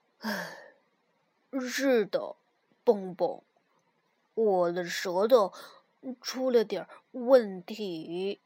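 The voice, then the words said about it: Quiet soft voice with a sigh. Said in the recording (Chinese): “小声说着，叹了口气”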